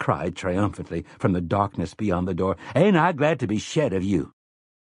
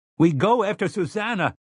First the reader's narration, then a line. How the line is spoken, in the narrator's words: Eddie shouted